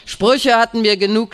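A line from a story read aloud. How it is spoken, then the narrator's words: Shouting. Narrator (German): schreit er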